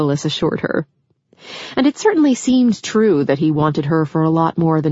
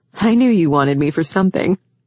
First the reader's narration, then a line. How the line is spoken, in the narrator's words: Rachel replied with a laugh